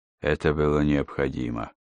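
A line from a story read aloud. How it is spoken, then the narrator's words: Muttered. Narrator (Russian): пробормотал он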